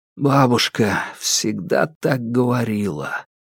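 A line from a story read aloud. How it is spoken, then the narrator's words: Whisper. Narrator (Russian): прошептал Александр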